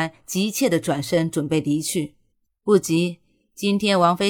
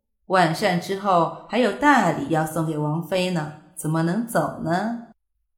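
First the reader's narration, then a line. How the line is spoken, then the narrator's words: Slow, soft chuckle. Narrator (Chinese): 夏侯玉轻笑地缓缓地说道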